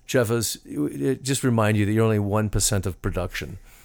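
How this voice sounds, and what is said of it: Put-on English accent. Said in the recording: “I'm always told in an English accent”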